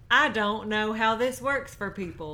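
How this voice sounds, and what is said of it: Hannah impression sounding like James Vanderbeek. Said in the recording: “your Hannah accent is just James Vanderbeek”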